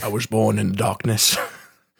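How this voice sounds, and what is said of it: Bane impression. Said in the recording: “Bane impression”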